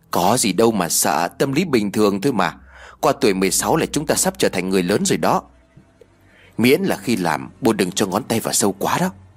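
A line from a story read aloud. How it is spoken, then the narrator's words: Sighing. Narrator (Vietnamese): Tiên liền thở dài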